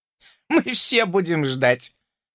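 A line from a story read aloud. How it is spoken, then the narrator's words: Cheerful chuckle. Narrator (Russian): Хохотнул заметно повеселевший тушканчок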